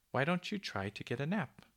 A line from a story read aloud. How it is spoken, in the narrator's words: she called in her soft cuckooing voice